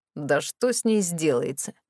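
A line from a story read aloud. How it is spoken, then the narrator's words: Snorted. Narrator (Russian): фыркнул Морис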